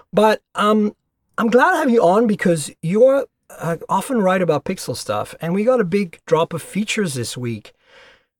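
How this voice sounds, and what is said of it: Stuffy, congested voice. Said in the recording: “I'm a little stuffy, so if you sound a little weird”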